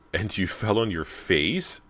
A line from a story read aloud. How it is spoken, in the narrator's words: She burst out laughing